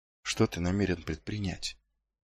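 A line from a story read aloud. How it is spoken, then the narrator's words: Barely audible. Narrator (Russian): Едва слышно выговорил он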